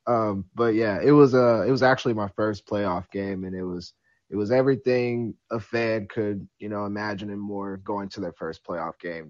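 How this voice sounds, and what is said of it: Rough, worn-out voice. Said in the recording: “Sorry if my voice sounds a little ... that trash ... I was at the game.”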